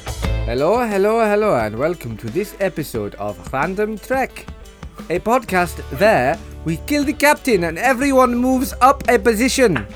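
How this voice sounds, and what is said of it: Bad put-on Russian accent. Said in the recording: “I assume that was meant to be Russian ... What accent was that? ... It sounded like Italian mixed with Brummy”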